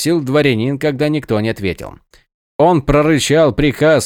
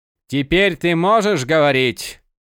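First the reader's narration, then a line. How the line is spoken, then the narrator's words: Deep bass voice. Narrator (Russian): Пробасил Гребень Ворона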